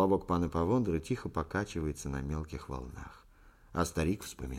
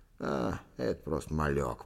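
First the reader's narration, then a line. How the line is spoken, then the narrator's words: Old man's grumble. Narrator (Russian): проворчал старик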